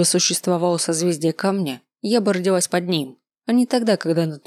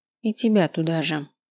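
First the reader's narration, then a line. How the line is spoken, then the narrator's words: Muttering. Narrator (Russian): пробормотал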